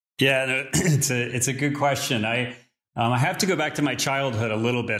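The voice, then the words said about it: American accent. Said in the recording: “judging by your accent, it sounds like you're originally from the US”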